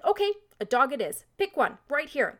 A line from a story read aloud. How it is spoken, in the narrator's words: the zookeeper impatiently said